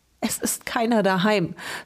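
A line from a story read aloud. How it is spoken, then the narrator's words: Sobbing. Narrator (German): schluchzte sie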